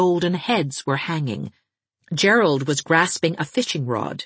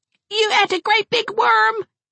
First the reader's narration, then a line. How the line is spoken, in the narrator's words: shrieked Gerald